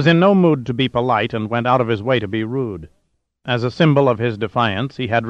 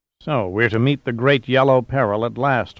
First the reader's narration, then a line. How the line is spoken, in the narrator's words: muttered Diaz